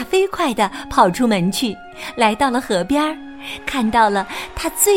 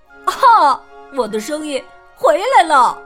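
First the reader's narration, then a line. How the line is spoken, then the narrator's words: Happy cry. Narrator (Chinese): 弗洛格高兴的叫道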